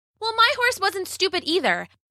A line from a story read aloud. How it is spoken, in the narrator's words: Bella shouted